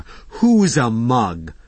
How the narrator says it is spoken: Fauna bellowed

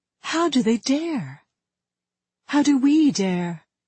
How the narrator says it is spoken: She whispered to him

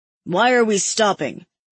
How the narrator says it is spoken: Hayden asks, his tone turly

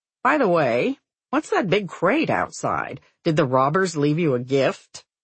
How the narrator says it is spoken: Susan laughs

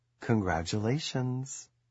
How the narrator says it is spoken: The server whispers

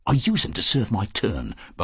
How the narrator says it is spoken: Barton said in a rapid and confidential tone

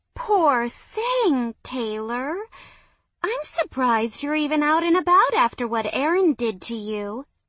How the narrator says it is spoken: she cooed

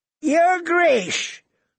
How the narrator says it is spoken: Lord Walder called out

